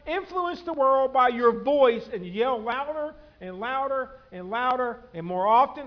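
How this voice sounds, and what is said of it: Suddenly loud, raised voice. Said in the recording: “I just scared half of y'all because my voice went up.”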